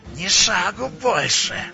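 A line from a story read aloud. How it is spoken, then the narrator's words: Growl. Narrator (Russian): зарычал Шам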